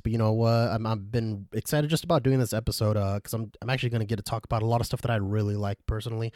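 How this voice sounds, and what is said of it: Voice affected by a cold. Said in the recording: “If you can't tell by my voice, I'm sadly getting over a cold ... which messes up my voice”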